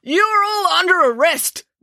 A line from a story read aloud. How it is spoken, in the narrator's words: bellowed Constable Pike